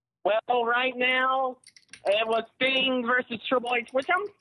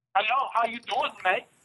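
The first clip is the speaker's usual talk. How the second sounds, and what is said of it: Attempted British accent, sounds Australian. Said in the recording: “I can speak in a British accent too ... That sounded Canadian. ... that's Australia, too. That's Australia.”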